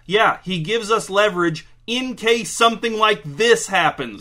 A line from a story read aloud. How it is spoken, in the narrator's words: shouted General Ferguson